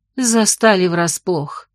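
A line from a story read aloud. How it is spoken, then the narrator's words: Gloomy sigh. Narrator (Russian): мрачно вздохнула Тихоня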